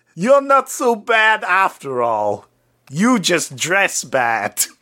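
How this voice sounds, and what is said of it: New York accent sounding like Schwarzenegger. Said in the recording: “in his New York accent ... I like how your New York accent is Arnold Schwarzenegger.”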